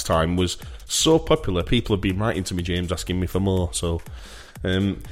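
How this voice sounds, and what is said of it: Usual voice. Nothing is said of it.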